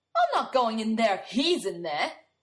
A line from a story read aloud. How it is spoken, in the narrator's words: Bradley yells